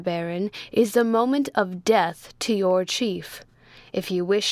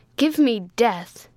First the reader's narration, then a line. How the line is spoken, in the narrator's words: cried he with loud impatience